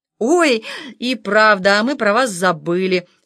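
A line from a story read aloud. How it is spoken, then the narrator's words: Joking, then laughing. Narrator (Russian): сострил Вячеслав и расхохотался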